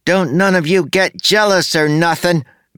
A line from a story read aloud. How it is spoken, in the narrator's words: Max shouted